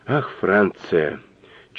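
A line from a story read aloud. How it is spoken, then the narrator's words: Barely audible breath. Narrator (Russian): чуть слышно выдохнула Нелли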